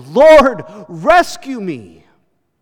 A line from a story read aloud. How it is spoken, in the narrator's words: he shouted